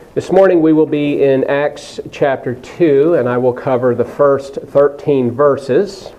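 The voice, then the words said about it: Unwell, slightly strained voice. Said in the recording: “You'll have to forgive my voice. I'm not quite 100%. I'm still recovering from a cold”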